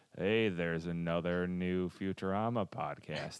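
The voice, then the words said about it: Impression of Al Gore. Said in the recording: “That's not a very good Al Gore.”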